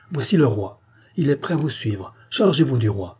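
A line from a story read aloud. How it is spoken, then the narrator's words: Exclaiming. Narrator (French): s'écria Gilbert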